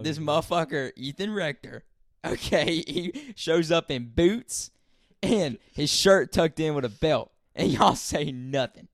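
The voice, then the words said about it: Rural Southern American accent. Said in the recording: “Y'all got to chill with the redneck talk... I have an accent”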